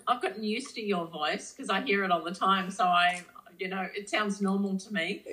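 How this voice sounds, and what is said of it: Australian accent. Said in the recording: “You have that Australian accent, which all Americans are enamored by.”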